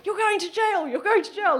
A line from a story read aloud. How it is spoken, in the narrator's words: she was still shouting, saying